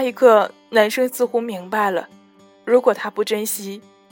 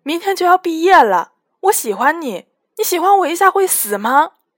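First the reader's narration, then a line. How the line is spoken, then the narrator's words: Loud shout. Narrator (Chinese): 小木在宿舍楼下大喊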